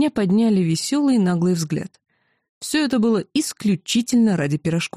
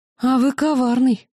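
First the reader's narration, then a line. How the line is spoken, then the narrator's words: Exclamation. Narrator (Russian): воскликнула я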